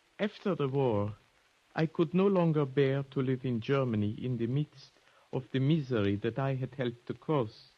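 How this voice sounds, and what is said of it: German accent. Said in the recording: “your accent, you're German, aren't you?”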